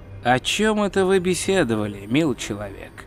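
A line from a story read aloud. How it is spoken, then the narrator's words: Quiet inquiry. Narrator (Russian): негромко поинтересовался величайший вор в Ангмарпорке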